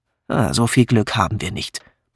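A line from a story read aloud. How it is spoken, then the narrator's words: Grumbling. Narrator (German): brummte Patrick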